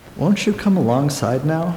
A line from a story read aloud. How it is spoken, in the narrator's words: asked Will in an even voice